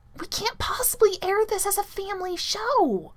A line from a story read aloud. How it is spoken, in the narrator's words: he hisses